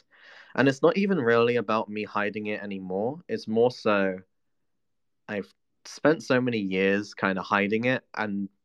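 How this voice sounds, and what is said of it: Mixed posh and Cockney English accent. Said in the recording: “I tried hiding my Cockney accent for many years now, for a more posh one. That's why I have posh, and then the Cockney kind of comes out as well, as a mix ... now my accent just is this. Like, it's a weird mix.”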